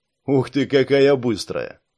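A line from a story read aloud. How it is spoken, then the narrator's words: Grumble. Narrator (Russian): пробурчал Саш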